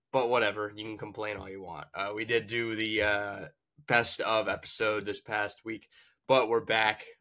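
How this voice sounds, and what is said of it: Voice sounds unwell, rough. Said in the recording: “you can tell by my voice I'm not in the best shape right now”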